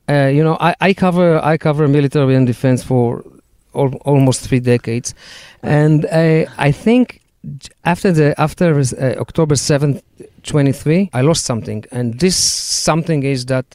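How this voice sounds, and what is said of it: Israeli-accented English. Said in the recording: “it's the Israeli accent that we all, the three of us, have. It's very nice.”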